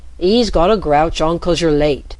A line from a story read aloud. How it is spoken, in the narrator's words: called out